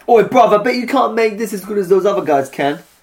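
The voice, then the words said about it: Put-on chav voice. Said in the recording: “you played a chav ... Can you do an impression? ... Well, I think I just did.”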